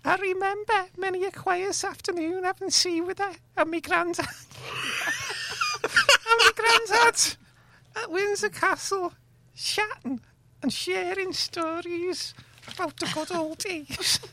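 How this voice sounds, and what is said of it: Prince William with Scouse accent. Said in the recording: “that's how he speaks ... That's how Prince Williams. That's his real accent ... He puts a posh one on ... he's a Scouser”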